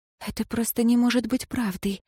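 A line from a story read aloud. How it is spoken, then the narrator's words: Whispering. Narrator (Russian): прошептала узница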